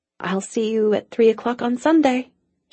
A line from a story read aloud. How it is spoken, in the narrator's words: she said hoarsely